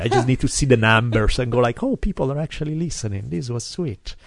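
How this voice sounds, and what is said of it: Speaks with a noticeable accent. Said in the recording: “If you can tolerate my accent”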